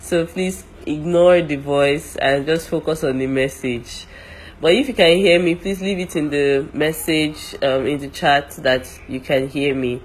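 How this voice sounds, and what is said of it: Congested voice from a cold. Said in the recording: “my voice sounds funny, it's because I have a cold”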